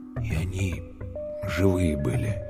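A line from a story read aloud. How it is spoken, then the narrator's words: Quiet. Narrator (Russian): тихо сказал Калюня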